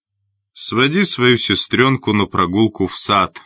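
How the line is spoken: Plain. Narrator (Russian): сказал он

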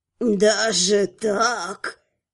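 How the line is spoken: Strange tone. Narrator (Russian): каким-то странным тоном произнесла прорицательница

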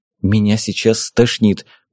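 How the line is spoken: Muttered. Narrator (Russian): пробормотала Вика

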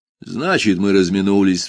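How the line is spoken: Sighing. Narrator (Russian): вздохнул

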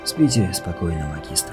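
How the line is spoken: Whisper. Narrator (Russian): прошептал Никлас

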